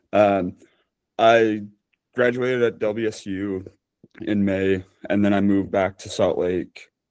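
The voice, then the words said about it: Hoarse, nearly lost voice. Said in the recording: “I've lost my voice today”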